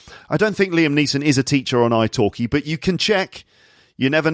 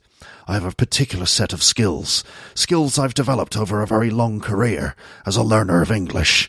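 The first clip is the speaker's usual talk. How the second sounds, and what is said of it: Liam Neeson impression. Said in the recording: “in your perfect Liam Neeson accent”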